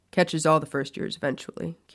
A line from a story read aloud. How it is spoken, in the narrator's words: Kingsley said with a low chuckle